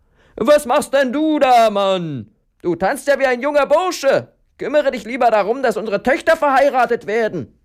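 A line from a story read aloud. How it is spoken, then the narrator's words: Calling out. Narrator (German): rief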